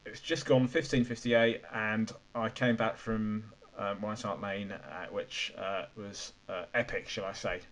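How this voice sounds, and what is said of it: Croaky, strained voice. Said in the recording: “my voice is a bit croaky ... I was screaming my head off ... So my voice might be somewhat croaky.”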